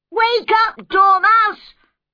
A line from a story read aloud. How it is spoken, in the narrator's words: shouted loudly in its ears